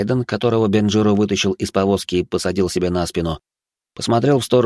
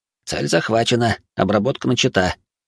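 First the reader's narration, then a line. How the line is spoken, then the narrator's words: Boy's low mutter, then giggle. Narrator (Russian): полголоса пробурчал мальчишка и захихикал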